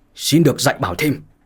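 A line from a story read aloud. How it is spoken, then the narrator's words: Shouted. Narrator (Vietnamese): gã quát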